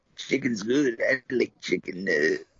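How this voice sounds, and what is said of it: Rough, sore-throat impression voice. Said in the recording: “my Stu Hart impression is actually just Charles Bronson with a sore throat”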